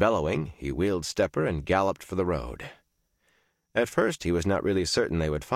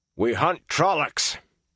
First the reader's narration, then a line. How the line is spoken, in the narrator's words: Perrin shouted over his shoulder